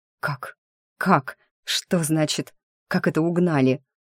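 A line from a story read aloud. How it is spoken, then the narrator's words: Strained, barely squeezed out. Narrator (Russian): Едва сумела выдавить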